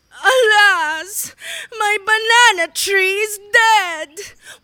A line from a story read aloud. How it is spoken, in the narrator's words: wailed the monkey tearfully